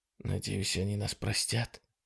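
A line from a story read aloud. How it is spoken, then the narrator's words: Whispered. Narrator (Russian): прошептал он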